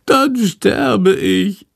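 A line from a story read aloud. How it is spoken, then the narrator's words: Wailing. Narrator (German): jammert Schandor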